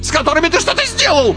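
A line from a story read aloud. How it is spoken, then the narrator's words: Shrill squeal. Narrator (Russian): взвизгнул Карбулон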